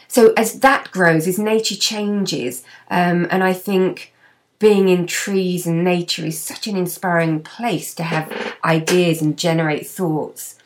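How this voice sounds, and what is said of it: Slightly husky voice. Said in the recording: “I lost my voice, still a little husky”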